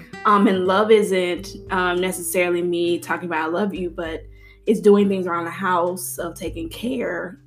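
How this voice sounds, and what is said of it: Voice fading, breaking with emotion. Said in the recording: “my voice is like disappearing ... because you're emotional”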